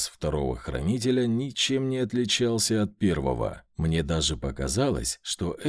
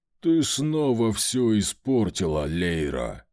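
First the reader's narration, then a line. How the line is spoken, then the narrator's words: Growling guardian. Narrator (Russian): прорычал первый хранитель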